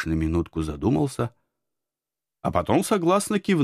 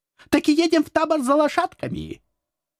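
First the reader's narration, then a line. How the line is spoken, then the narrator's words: Confident devil. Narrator (Russian): уверенно начал черт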